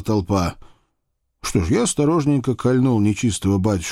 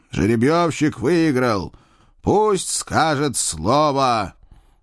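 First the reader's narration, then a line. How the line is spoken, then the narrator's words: Loud shout. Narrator (Russian): громко прокричал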